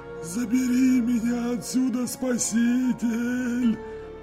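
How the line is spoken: Trembling old man's hiss. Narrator (Russian): Дрожащим голосом прошипел старик

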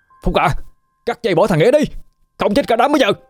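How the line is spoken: Shouting. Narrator (Vietnamese): Hưng hét lên bảo với Phúc

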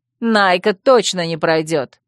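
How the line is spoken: Haughty snort. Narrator (Russian): надменно фыркнула Янви

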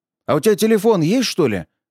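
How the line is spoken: Shouted after someone. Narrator (Russian): крикнул вдогонку Кутепов

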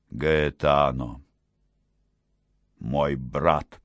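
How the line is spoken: Soft, quiet, moving voice. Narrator (Russian): Он сказал мягким и тихим голосом, который, однако ж, глубоко проникал в сердце несчастного художника

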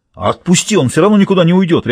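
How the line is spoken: Barked. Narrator (Russian): рявкнул Бакстер

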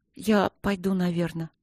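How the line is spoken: Quiet female voice. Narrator (Russian): сказала она тихо

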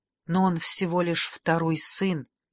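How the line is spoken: Said softly. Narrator (Russian): мягко сказала Каталина

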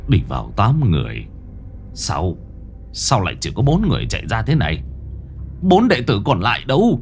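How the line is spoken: Muttering. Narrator (Vietnamese): Bá quân trưởng môn lẩm bẩm

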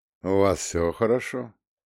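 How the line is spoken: Quiet, calm question. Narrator (Russian): спросил ликвидатор тихим, спокойным тоном

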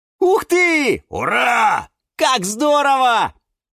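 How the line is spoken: Everyone shouting. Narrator (Russian): Закричали все

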